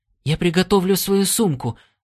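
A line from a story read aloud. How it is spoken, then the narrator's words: Hurried. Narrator (Russian): торопливо сказал Стинни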